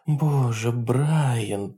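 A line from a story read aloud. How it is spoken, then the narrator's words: Muttering. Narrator (Russian): пробормотала она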